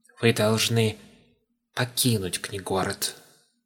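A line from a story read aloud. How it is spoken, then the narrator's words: Whisper. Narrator (Russian): прошептал он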